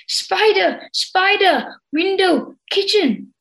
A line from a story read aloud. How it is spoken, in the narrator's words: Katoza cried out to him